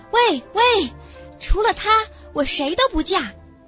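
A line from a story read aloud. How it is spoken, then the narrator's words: Loud girl's voice. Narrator (Chinese): 最年长的少女对另外2个大声说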